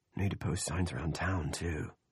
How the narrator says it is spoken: he murmured

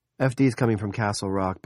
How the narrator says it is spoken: Barbie said

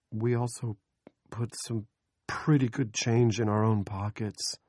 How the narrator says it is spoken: Andy said timidly

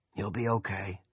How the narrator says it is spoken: a raspy, plugged-up voice said

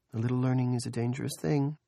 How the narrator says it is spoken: Julia said dreamily

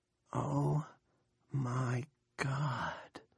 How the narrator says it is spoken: Nori whispers

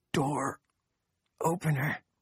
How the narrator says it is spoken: Chef whispered

